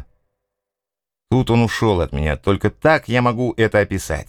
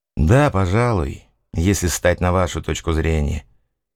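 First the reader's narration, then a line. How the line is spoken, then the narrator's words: Mumbling. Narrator (Russian): промямлил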